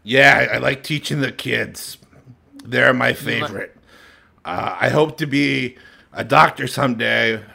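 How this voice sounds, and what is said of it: Rough, damaged voice. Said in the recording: “excuse my voice. It's been horrible. I'm trying to stop smoking.”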